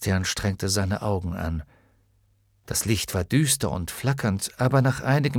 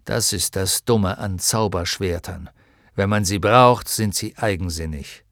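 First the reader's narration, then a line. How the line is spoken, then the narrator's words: Growling. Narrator (German): knurrte Hydorn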